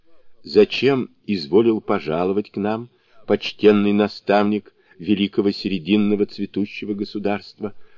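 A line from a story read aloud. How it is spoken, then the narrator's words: Timid question. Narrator (Russian): робко спросил один из них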